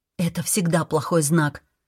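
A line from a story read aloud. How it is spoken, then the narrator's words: Muttering to herself. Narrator (Russian): пробормотала себе под нос Ниам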